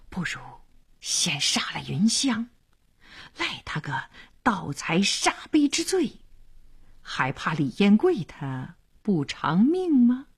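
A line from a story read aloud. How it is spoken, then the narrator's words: Fierce whisper. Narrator (Chinese): 黄良眼里闪着凶光，小声说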